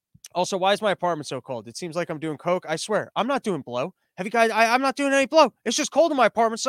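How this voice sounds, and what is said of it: Usual voice. Nothing is said of it.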